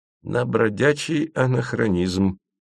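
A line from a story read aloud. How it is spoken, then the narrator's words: Purred. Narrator (Russian): промурлыкал тот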